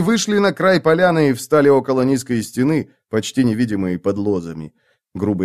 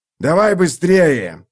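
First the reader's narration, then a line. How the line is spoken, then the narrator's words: Growled. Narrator (Russian): прорычал Мураш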